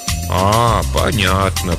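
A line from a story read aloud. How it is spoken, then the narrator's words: Drawled, old woman. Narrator (Russian): протянула бабушка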